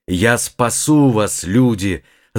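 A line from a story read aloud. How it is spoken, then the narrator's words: Long powerful shout. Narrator (Russian): закричал он протяжно и мощно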